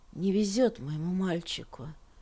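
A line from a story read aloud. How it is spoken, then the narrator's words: Muttering. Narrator (Russian): пробормотала она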